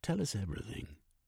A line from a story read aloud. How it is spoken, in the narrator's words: said in a low voice